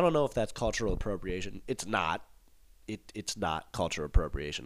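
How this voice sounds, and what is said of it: Usual voice. Nothing is said of it.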